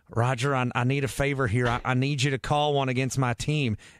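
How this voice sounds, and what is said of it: Jerry Jones impression. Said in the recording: “That was not a bad impression. That was pretty good. ... that was Frank Caliendo good. ... that's one of the better Jerry Jones that I've heard.”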